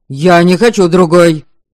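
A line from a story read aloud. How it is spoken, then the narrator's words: Heated shout. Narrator (Russian): Запальчиво крикнул Радим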